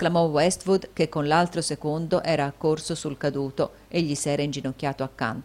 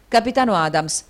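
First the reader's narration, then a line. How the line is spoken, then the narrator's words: Hurried exclamation. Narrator (Italian): esclamò in fretta Westwood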